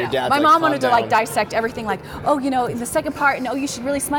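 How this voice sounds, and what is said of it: Usual voice. Nothing is said of it.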